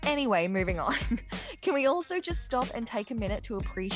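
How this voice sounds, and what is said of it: Usual voice. Nothing is said of it.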